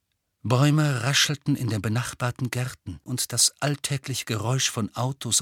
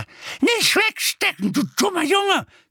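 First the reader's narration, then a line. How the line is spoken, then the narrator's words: Shrieking. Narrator (German): kreischte sie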